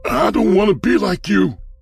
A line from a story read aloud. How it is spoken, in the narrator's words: he shouted into the empty corridor